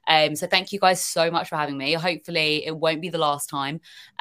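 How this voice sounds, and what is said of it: British accent. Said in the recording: “hearing a British accent ... I think your British accent is the least of the worries”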